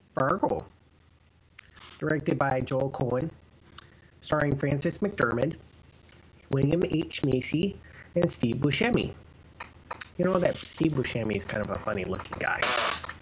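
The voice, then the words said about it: Exaggerated Minnesota Fargo-style accent. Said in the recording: “Are you going to do the whole rest of the episode in that accent? ... Isn't that your natural accent being from... ... northern Minnesota ... they really did talk like this.”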